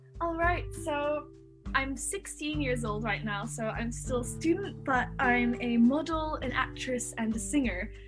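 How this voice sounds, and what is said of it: Mixed American and English accent. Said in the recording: “my accent is a little bit strange because it's a mix of American and English”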